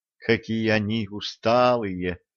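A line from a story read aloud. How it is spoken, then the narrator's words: Pitying sigh. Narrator (Russian): жалостливо вздохнула Ирина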